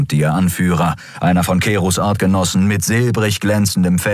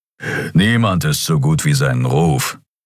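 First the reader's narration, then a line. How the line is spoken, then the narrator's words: Growl. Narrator (German): knurrte Keru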